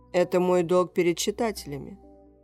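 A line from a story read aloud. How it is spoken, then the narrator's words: Dry reply. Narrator (Russian): сухо ответил Майк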